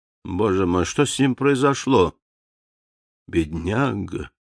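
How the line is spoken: Quiet question. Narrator (Russian): Квинси тихо спросил

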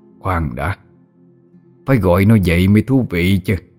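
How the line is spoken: Muttering. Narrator (Vietnamese): Hắn lẩm bẩm nói

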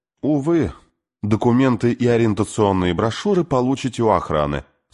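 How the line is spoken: Dry announcement. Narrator (Russian): сухо объявило существо

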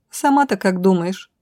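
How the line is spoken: Snort. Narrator (Russian): хмыкнула Роша

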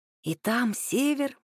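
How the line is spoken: Whispering. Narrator (Russian): шептал он

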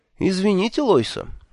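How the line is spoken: Cheerful. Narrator (Russian): весело сказал я

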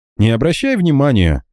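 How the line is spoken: Cheerful chuckle. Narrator (Russian): весело хмыкнул Франсуа

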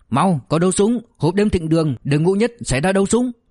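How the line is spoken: Urgent shouting. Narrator (Vietnamese): lập tức hét lên

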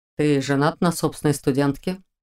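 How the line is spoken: Calm statement. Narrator (Russian): спокойно заявил он

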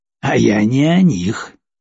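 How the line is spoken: Snorting. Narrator (Russian): хмыкнул Джек Дэн

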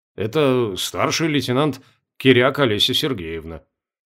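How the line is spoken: Quiet answer. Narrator (Russian): почему-то тихо ответил Кошкин

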